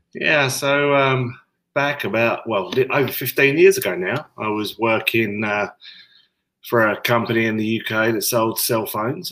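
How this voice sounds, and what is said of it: English accent. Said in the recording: “you've got the English accent”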